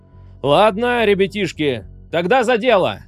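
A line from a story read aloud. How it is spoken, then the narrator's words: Barking. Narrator (Russian): рявкнул Орвик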